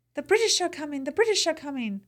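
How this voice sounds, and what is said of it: Put-on British accent. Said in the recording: “you did it better than I did ... You sound like Oliver Twist.”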